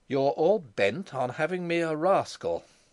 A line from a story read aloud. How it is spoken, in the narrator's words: he said coldly